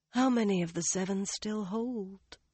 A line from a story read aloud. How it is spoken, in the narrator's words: Mirel asked softly, as if speaking to herself